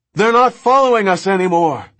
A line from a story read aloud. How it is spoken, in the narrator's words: Levine shouted